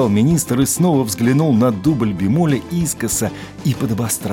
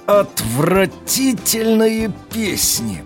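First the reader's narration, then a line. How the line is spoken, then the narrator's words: King, through gritted teeth. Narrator (Russian): процедил сквозь зубы король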